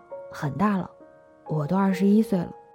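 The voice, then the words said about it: Quiet, timid voice. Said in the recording (Chinese): “我害怕起来，小声说”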